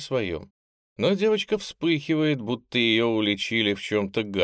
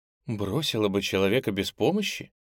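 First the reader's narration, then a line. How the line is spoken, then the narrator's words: Calm, non-hostile. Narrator (Russian): Онежа спрашивает спокойно и вовсе не пытаясь задеть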